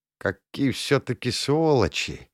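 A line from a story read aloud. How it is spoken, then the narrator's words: Quavering voice. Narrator (Russian): дребезжащим голосом выговорил Тахир Мурадович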